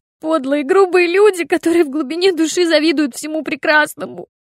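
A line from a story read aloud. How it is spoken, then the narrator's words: Loud sob. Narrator (Russian): Флоренс громко всхлипнула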